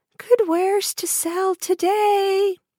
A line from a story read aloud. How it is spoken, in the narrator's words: she called out